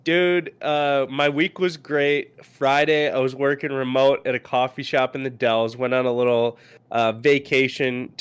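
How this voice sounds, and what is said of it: Congested, stuffy-nosed voice. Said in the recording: “you can hear it in my voice. ... Very congested still.”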